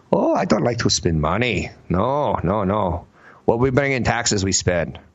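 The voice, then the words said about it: Bad put-on German accent. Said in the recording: “that's the worst German accent ever”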